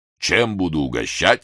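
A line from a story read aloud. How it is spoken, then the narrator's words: Unexpectedly low masculine voice. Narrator (Russian): спросила она неожиданно низким мужским голосом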